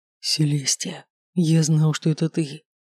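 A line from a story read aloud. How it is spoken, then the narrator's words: Whisper against lips. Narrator (Russian): прошептал он мне в губы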